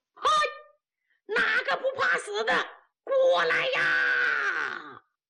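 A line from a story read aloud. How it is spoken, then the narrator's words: Loud shout. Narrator (Chinese): 岳云学战马高喊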